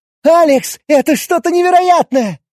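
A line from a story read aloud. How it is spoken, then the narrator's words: Delighted young woman exclaiming. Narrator (Russian): восторженно воскликнула девушка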